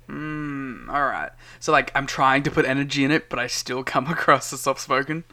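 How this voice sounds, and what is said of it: Soft, pleasant Australian accent. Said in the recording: “You're definitely soft-spoken. You have a nice soft, pleasant Australian accent. I think it's just the accent”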